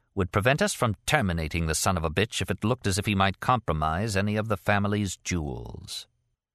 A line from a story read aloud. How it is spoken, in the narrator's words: she continued, her voice turning starchy